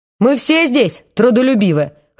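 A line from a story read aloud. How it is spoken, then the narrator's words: Chuckling. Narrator (Russian): хохотнул Борис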